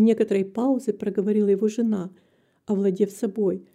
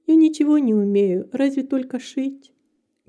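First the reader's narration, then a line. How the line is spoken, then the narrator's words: Calm. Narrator (Russian): говорила спокойно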